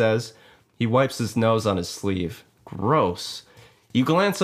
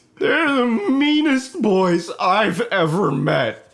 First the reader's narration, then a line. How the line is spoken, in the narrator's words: Todd wails